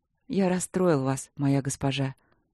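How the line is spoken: Soft. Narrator (Russian): мягко сказал он

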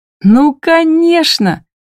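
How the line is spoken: Joyful exclamation. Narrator (Russian): восклицаю радостно

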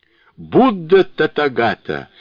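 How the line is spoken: Loud exclamation. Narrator (Russian): воскликнул Сунь-Укун громким голосом

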